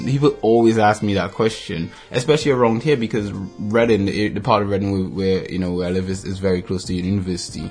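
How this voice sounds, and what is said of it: Non-British foreign accent. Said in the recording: “you can tell my accent isn't British. So you're like, oh, he's a foreigner.”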